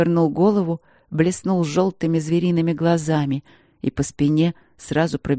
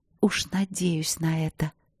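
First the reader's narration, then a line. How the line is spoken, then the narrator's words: Sultry provocative whisper. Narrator (Russian): сказала она провоцирующим жарким шепотом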